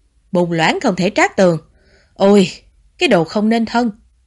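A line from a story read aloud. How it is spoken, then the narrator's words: Angry scolding. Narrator (Vietnamese): Bà Tống tức giận mắng Tiểu Bảo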